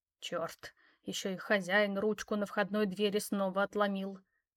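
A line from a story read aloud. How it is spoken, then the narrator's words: Muttered. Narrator (Russian): пробормотала женщина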